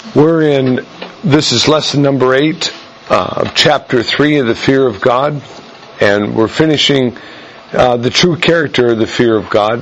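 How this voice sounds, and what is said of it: Hoarse, fading voice. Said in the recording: “I'm losing my voice a bit today, so it may fade in and out unexpectedly.”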